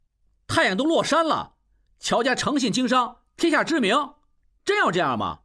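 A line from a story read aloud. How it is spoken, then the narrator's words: Loud, exasperated. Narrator (Chinese): 应文忍无可忍，大声说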